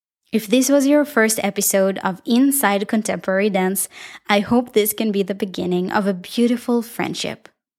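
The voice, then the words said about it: Israeli-accented English. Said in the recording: “my beautiful Israeli accent”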